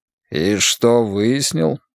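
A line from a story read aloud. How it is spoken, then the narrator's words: Bored creaky voice. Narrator (Russian): скучно проскрипел Джордж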